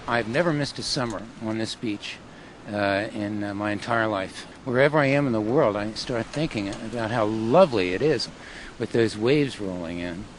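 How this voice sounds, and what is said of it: South Jersey accent. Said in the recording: “South Jersey accent is perfectly intact.”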